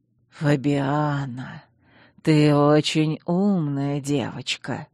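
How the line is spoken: Ingratiating, insinuating. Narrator (Russian): вкрадчиво произнес Чейз

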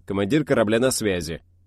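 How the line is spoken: Firm, manly tone. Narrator (Russian): мужественным тоном ответил Джон

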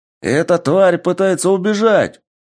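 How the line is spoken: Soldier shouting. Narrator (Russian): закричал один из бойцов

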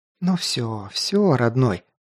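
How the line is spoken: Tender whisper in ear. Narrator (Russian): прошептала ласково на ухо

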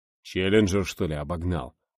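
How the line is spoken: Puzzled muttering. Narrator (Russian): пробормотал Волк, гадая

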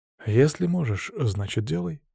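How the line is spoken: Calm. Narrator (Russian): спокойно кивнул я

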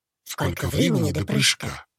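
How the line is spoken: Strange-voiced question. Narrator (Russian): спросил человек со странным голосом

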